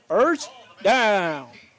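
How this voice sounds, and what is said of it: Stadium PA announcer voice. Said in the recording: “a good PA impression... That was a great PA impression... That was a PA right there.”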